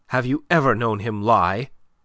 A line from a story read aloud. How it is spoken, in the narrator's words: she cut in sharply